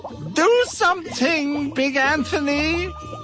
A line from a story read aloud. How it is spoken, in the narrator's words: they shouted